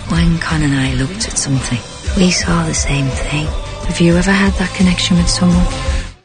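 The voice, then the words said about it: Thick Irish brogue. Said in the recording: “The Irish brogue is a little thick. It's a little thick in this film.”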